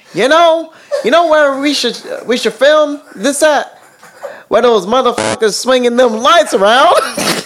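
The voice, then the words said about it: Poorly done country accent. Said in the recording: “a poorly done country accent”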